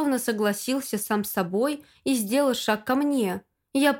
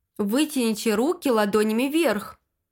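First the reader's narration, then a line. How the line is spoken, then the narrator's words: Plain. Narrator (Russian): сказал он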